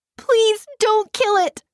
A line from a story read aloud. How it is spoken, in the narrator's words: she sobbed